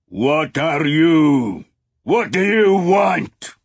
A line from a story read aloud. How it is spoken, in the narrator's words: he roared in English, since Will had spoken in that language